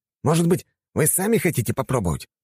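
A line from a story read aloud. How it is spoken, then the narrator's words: Stung, snapping. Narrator (Russian): огрызнулся уязвленный Щекин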